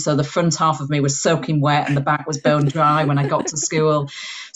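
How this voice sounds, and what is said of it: Slight Yorkshire accent. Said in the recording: “I've got a twang of a Yorkshire accent in here”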